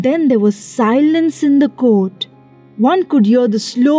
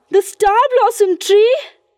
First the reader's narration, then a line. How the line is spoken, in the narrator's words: cried